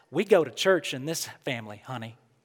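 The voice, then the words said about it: Sweet Southern accent imitation. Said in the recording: “That's my mom's sweet southern accent.”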